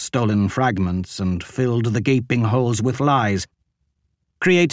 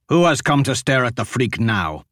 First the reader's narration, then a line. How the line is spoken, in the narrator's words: Ashok snapped